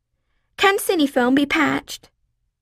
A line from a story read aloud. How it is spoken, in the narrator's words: blurting out